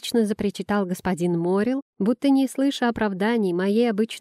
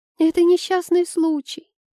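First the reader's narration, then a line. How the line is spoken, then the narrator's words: Squeaky. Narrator (Russian): пропищала Айла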